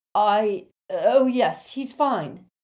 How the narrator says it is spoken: Lupin said loudly

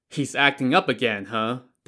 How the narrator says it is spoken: Dai Zong said with a chuckle

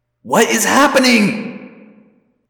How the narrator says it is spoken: Visitor 3 cried

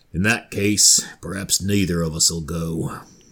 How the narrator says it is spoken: Eil, who rather coolly replies

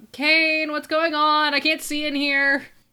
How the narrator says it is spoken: shout out

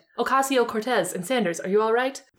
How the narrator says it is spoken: Bernie answered quickly

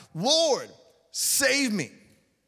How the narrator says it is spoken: he was afraid and beginning to sink, cried out

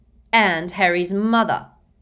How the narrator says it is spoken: snarled George

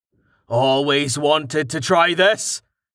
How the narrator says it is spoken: he shouted, heaving with all of his might

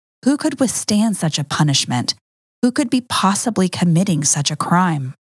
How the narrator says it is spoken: The people began to murmur among themselves

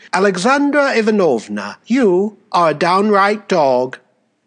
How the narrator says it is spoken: she revolted and, addressing herself to her assailant, said quite calmly and affably, so that everyone laughed

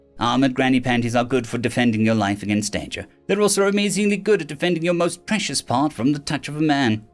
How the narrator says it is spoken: Umpna said dryly

